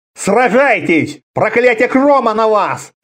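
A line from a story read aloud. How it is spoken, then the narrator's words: Shouting. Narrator (Russian): кричал Конан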